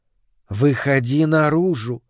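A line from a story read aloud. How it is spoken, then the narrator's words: Gentle call. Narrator (Russian): ласково позвал его голос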